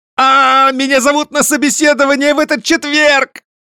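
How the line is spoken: Excited female yelling. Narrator (Russian): заорала я, падая со стула

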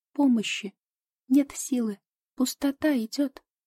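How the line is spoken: Weak squeak, small hedgehog. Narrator (Russian): Ежик слабо пискнул

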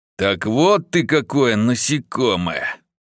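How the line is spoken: Hissing. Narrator (Russian): прошипел он

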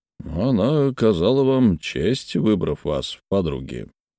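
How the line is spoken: Muttered, then coughing. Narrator (Russian): пробормотал мистер Глоссоп и закашлялся

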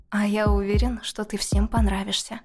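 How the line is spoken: Velvety voice, close to ear. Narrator (Russian): наклонился к моему уху и произнес своим бархатным голосом

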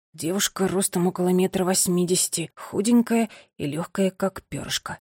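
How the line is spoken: Young man whispering. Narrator (Russian): шептал юноша

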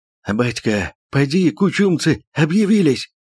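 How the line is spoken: Breathless hoarse wheeze, Cossack. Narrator (Russian): Запыхавшись от бега, прохрипел казак

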